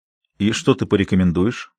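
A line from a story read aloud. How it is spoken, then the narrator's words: Calm question. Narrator (Russian): спокойным голосом спросил Ренни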